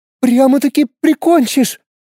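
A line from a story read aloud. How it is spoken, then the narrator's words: Frightened squeak. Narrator (Russian): издала писк и испуганно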